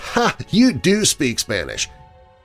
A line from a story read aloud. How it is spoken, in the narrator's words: laughed her head off and said